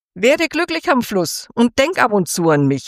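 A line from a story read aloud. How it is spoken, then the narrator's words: Called after. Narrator (German): rief sie ihr nach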